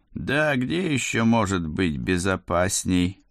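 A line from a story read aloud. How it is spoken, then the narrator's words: Laughing agreement. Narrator (Russian): рассмеявшись, поддержал его кудрявый черт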